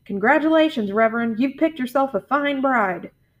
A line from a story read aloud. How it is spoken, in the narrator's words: the woman called out